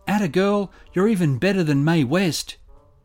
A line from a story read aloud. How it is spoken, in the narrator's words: someone cried